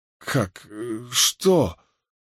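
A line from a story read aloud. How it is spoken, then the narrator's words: Incoherent mumbling. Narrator (Russian): Бессвязно забормотал Мэтью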